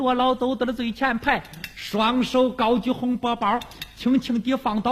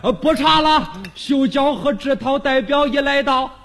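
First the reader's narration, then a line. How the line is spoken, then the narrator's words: Hurried call. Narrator (Chinese): 罗老忙喊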